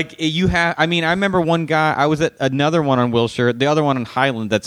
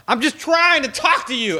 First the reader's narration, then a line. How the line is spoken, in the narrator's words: he all of a sudden started yelling